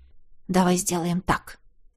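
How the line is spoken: Whisper. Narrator (Russian): шепнул я

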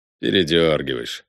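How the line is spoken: Snorting. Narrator (Russian): хмыкнула из темноты Алва

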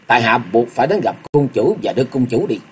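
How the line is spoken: Stern. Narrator (Vietnamese): Ngọc Long nghiêm giọng nói

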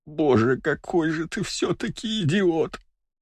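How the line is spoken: Groaning. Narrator (Russian): Простонала она

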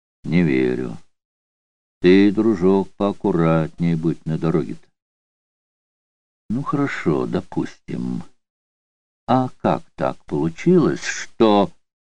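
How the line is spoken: Calm. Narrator (Russian): сказал спокойно

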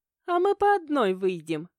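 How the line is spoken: Thoughtful giggle. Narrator (Russian): подумав, хихикнула

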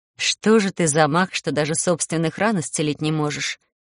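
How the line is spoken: Indignant. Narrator (Russian): возмущалась я

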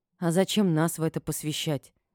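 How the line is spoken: Sighing. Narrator (Russian): вздохнула я

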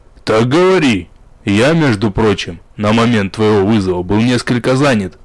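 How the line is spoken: Demon's slight growl. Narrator (Russian): С легким рычанием откликнулся демон

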